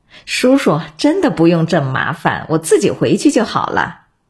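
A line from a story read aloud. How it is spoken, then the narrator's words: Laughing. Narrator (Chinese): 金牧阳笑着说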